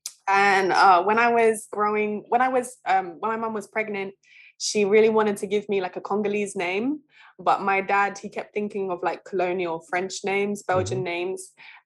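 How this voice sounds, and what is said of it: British accent. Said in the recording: “you can hear from my accent that I'm British”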